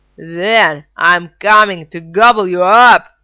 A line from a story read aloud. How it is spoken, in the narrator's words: roared the troll